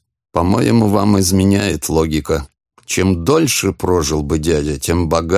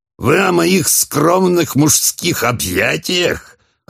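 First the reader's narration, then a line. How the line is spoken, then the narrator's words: Loud laughter. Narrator (Russian): расхохотался Холмс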